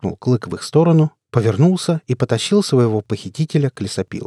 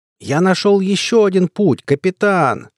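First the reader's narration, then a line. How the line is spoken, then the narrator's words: Loud. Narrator (Russian): громко говорил Клык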